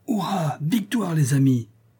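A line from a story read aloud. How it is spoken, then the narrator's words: Exclaimed. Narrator (French): s'écria Ducasse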